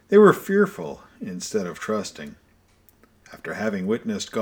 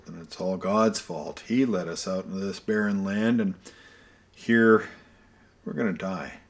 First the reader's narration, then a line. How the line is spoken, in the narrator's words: they grumbled